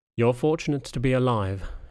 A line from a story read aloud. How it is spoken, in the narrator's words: he sighed